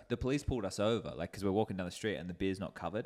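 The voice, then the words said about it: Australian accent. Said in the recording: “Where is your accent from?" And we're from Australia.”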